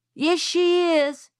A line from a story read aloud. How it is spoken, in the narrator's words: shouted Francis